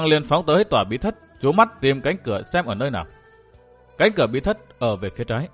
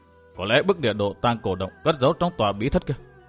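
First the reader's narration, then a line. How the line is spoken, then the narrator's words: Muttering. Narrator (Vietnamese): Thạch Kiếm Cửu lẩm bẩm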